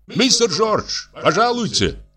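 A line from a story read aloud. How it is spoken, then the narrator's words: Shout behind door. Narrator (Russian): крикнул кто-то за дверью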